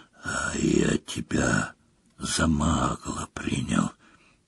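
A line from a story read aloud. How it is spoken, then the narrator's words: Whispering. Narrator (Russian): прошептал Морфин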